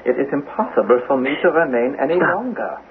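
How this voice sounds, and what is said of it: German accent. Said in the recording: “The German accent.”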